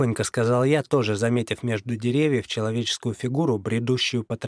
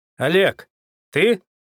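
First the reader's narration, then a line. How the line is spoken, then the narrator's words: Hopeful trembling shout. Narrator (Russian): с надеждой крикнул Козлов, дрожа от волнения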